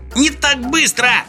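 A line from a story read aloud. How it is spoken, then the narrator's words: Wailing yell. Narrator (Russian): завопил Сниф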